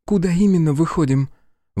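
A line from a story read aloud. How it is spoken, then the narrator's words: Breathed almost silently. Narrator (Russian): Выдохнула Ер почти беззвучно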